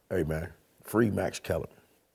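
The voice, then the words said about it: Whispering. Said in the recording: “Why are you whispering”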